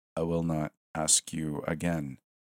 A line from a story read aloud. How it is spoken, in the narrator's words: the professor said stiffly